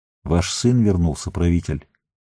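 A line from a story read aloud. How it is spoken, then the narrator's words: Quiet. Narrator (Russian): негромко сказал он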